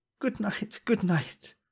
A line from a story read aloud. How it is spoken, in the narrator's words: she cried